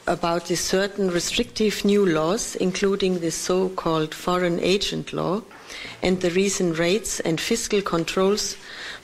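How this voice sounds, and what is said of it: Heavy foreign accent, hard to understand. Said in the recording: “It's a little hard to understand because everyone's got a frickin' accent.”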